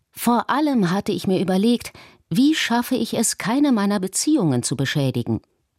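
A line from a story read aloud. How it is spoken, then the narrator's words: Plain. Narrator (German): sagte er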